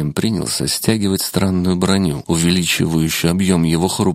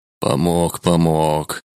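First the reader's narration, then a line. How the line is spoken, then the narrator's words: Angry grumbling. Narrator (Russian): зло пробурчал шаман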